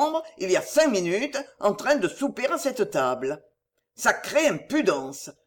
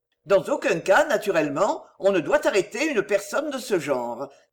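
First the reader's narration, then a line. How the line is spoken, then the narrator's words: Quick, brisk. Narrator (French): dit vivement Chauvelin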